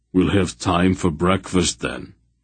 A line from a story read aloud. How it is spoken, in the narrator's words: Barak said dryly